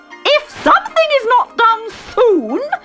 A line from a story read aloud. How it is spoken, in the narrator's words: screeched the Queen